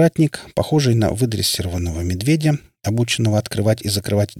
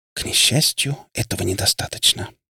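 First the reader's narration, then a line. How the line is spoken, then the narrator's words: Girl whispering. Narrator (Russian): прошептала девушка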